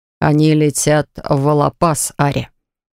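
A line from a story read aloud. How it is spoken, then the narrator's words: Hollow, muffled voice. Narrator (Russian): глухо произносит крестный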